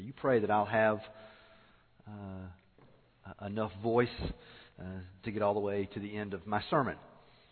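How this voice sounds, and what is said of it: Hoarse voice from a cold. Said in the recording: “apologize for my voice. I am battling a cold”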